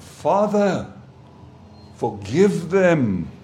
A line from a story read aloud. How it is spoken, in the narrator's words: He cried out